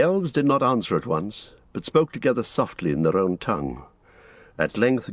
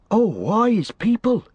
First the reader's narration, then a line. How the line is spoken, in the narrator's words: interrupted Pippin eagerly